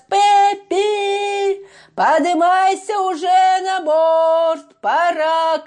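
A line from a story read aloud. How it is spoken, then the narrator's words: Captain shouting. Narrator (Russian): крикнул капитан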